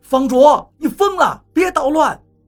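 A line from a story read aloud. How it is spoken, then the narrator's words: Aggrieved. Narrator (Chinese): 方卓委屈地说道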